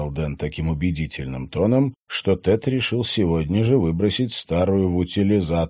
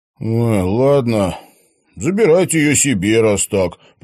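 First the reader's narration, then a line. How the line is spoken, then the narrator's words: Grumble. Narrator (Russian): проворчал он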